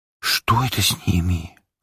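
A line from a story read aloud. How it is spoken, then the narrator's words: Whispered question. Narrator (Russian): озвучила шепотом Ариэль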